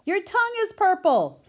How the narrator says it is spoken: screamed Fern

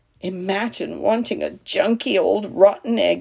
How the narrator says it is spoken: he muttered

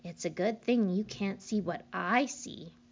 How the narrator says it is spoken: she said

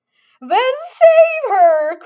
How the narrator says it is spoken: cried Mrs

